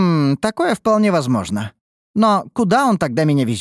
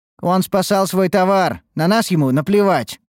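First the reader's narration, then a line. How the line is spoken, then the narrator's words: Snorting. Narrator (Russian): фыркнул Элджин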